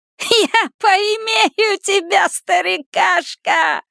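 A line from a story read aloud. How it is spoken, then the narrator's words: Monster's laughter. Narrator (Russian): расхохоталась тварь в облике Гейджа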